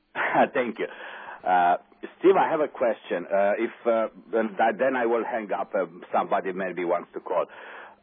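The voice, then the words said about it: Speaks with an accent. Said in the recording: “good to hear your accent again”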